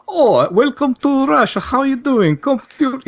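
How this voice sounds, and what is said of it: Exaggerated put-on Russian accent. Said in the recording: “the Russian accent ... lay it on too thick”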